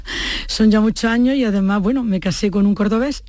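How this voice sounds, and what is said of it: Andalusian accent from Jaén. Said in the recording (Spanish): “El acento también lo tiene muy de Jaén”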